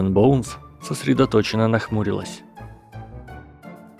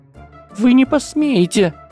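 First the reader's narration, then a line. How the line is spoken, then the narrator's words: Shriek. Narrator (Russian): взвизгнула Трейси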